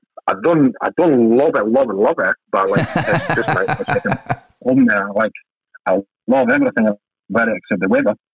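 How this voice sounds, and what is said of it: Scottish twang accent. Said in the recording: “you've got the Scottish twang there”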